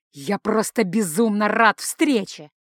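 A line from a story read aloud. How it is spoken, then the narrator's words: Roared. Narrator (Russian): прорычал Рошел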